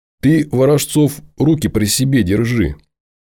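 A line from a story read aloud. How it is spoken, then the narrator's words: Giggling. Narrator (Russian): Сергуни хихикнул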